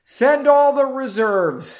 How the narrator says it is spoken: shouted another mage

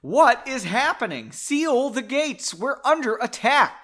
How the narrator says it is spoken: came a yell from inside

